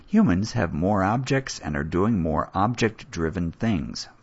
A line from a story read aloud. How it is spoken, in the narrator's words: Forrester says